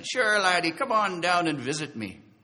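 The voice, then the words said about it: Imitated Irish accent. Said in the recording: “he goes in his Irish accent”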